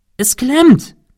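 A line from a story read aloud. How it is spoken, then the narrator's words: Calling. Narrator (German): rief Cecil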